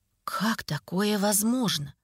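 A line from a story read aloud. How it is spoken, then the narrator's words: Surprised whisper. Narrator (Russian): Удивленно прошептал Демьян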